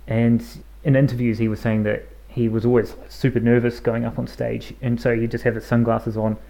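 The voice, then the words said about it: New Zealand accent. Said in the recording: “my New Zealand accent”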